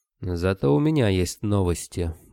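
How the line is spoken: Gloomy. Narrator (Russian): мрачно произнес Скадарский

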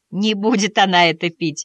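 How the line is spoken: Laughing. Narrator (Russian): засмеялась миссис Шляп

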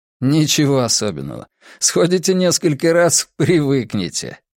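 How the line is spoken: Laughing. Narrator (Russian): засмеялся Чу Янь

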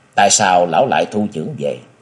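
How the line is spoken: Smiling question. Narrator (Vietnamese): mỉm cười, chàng hỏi

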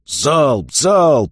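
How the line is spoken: Barked. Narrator (Russian): Вид рявкнул

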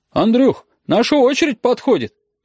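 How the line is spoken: Called out from the counter. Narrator (Russian): крикнула от стойки Оксана

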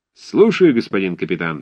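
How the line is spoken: Cheerful bellow. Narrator (Russian): весело гаркнул Лбов

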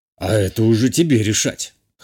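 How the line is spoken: Smirking snort. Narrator (Russian): хмыкнул тот

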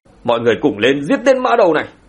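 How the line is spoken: Roaring battle cry. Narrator (Vietnamese): bọn họ gầm lên một tiếng

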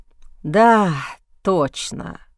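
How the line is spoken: Sighed. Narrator (Russian): вздохнул Стронгхолд

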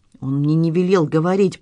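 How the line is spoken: Timid babbling. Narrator (Russian): пролепетал маляр

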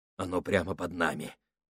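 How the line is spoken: Mutter. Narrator (Russian): пробормотал Гослинг

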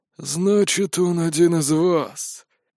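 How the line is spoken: Disappointed drawl. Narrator (Russian): с разочарованным видом протянул мой бывший партнер

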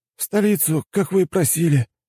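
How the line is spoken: Breathless. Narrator (Russian): выдохнул тот

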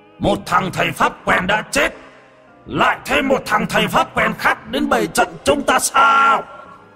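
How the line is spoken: Sneering shout. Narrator (Vietnamese): nhếch mép quát

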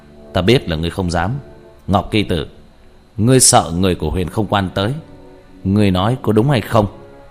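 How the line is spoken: Loud laughing. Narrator (Vietnamese): Diệp Thiếu Dương cười to

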